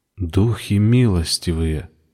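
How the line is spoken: Whispered. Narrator (Russian): прошептал Виктор

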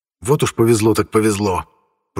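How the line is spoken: Through gritted teeth. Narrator (Russian): процедил сквозь зубы Горра

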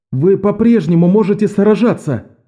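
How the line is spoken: Shouted. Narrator (Russian): прокричал у своей камеры Беннон

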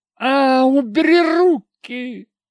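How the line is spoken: Girl shrieking. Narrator (Russian): завизжала девка

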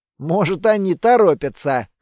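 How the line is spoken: Snorting hmph. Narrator (Russian): хмыкнул я

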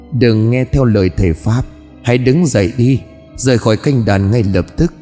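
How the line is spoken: Soft voice near ear. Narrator (Vietnamese): bên tai của Hoa vang lên giọng nói khè khẽ

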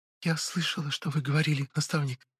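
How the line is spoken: Whispered. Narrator (Russian): прошептала

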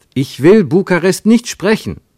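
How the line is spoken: Called out. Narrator (German): rief Ernst

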